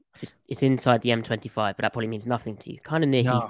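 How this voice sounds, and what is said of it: English accent. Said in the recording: “as you may be able to tell from my accent, from England”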